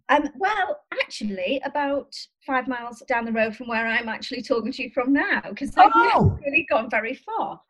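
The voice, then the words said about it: Oscillating, mixed regional accent. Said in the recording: “my accent is all over the place ... It's a lovely oscillating accent.”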